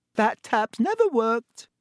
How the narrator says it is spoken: said Myrtle brightly

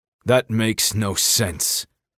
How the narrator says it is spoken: Kai growled

